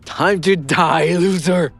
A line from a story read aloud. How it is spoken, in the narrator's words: He laughed sinisterly